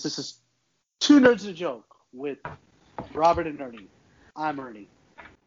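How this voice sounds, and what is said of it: William Shatner impression, dramatic pauses. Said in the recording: “Those are some dramatic and pregnant pauses there, sir. ... I tried to do Shatner on that one. I don't know if the pauses worked.”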